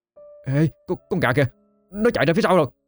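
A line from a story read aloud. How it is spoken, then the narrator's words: Sudden shout. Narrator (Vietnamese): bất ngờ đứng phắt dậy, chỉ tay và hét lên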